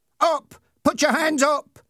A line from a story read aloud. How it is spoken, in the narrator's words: shouted Ernie